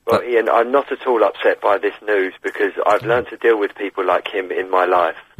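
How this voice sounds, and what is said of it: Flat toneless monotone voice. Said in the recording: “you're not being sarcastic. You actually can only sound like this, can't you? ... I suffer from a medical condition called tonelessness”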